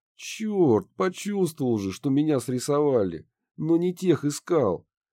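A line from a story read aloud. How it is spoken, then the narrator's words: Groaning. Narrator (Russian): простонал Гидеон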